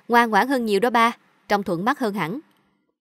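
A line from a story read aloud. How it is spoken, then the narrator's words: Bursting into laughter. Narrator (Vietnamese): Cậu Bảo cười phá lên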